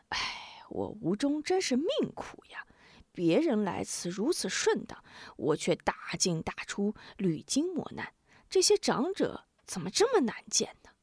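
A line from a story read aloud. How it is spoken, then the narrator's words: Dismayed inner sigh. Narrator (Chinese): 吴中心中一凉，暗暗叹息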